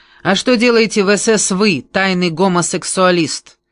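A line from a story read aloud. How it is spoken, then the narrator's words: Loud retort. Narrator (Russian): я громко бросила Кальтенборну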